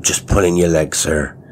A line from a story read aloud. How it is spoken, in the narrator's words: said